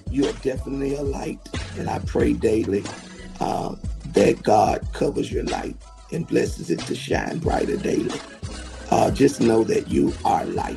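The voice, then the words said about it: Congested, rough sinus-affected voice. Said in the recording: “excuse my voice, my sinuses are giving me it, and my voice, I know it's a little crazy right now”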